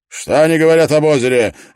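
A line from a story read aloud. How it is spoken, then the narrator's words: Tense barked question. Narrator (Russian): рявкнул он, напрягшись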